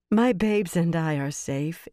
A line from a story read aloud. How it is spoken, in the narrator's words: Elaine laughed